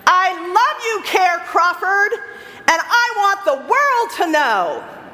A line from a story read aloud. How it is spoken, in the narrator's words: in a louder voice than before, he said